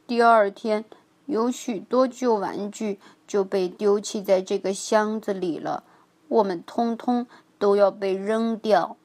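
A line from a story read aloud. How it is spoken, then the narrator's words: Sighing. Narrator (Chinese): 威利叹气道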